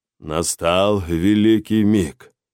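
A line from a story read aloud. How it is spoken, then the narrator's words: Solemn declaration. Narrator (Russian): торжественно заявил мужчина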